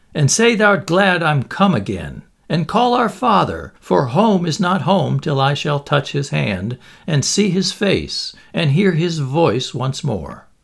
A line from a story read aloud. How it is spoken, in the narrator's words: cried